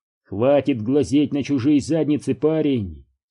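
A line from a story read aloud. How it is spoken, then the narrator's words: Plain. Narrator (Russian): сказал Дью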